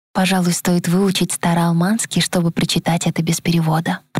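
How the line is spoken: Whispered. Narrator (Russian): прошептала я

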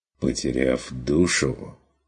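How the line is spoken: Quiet. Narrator (Russian): тихо докончил фон Вегерхов

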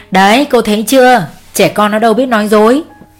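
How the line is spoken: Laughing loudly. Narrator (Vietnamese): Ông Tuấn cười to

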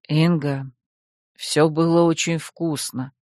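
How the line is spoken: Quiet. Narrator (Russian): тихо сказал ей Максар

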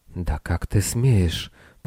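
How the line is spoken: Whisper. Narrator (Russian): прошептала она

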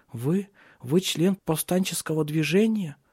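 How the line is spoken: Timid, admiring question. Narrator (Russian): Робко спросила она, восхищаясь им

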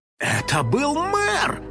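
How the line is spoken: Amazed exclamation. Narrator (Russian): изумленно воскликнул Финик

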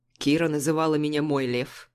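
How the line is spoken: Grim smirk. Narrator (Russian): усмехаясь мрачно

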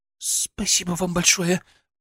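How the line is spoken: Babbling, embarrassed. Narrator (Russian): пролепетала она, все еще красная, как рак

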